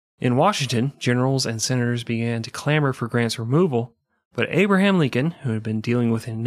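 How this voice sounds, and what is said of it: Usual voice. Nothing is said of it.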